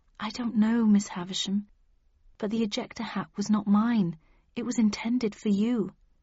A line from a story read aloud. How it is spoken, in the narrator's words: she sighed